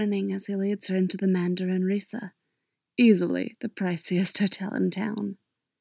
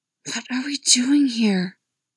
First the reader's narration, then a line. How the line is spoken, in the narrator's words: hisses